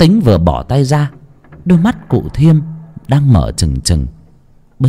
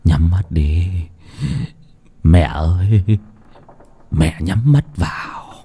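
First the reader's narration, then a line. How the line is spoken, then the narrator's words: Mumbling. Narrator (Vietnamese): lẩm bẩm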